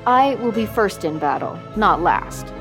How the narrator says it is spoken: he said

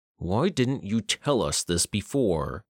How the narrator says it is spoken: Cruz asked through gritted teeth

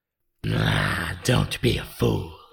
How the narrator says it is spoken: snarled the face

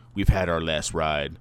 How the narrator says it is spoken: Dom says in a low, grizzled voice

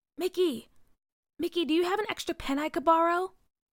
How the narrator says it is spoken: Hazel whispered

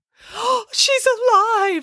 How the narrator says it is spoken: exclaimed Mrs

